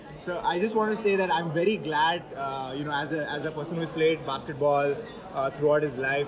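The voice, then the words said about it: Indian accent. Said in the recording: “the only Indian podcast in an Indian accent”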